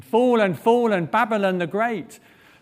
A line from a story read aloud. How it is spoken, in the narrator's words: another angel shouting